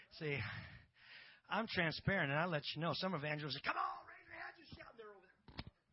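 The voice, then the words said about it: Out of breath. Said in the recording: “I'm out of breath. ... I'm just telling you straight up, I'm out of breath.”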